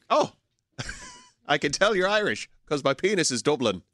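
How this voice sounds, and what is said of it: Put-on Irish accent. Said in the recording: “going to do his Irish accent all day. But it's really good though... it is so spot on... the worst Irish accent they've ever heard in their life”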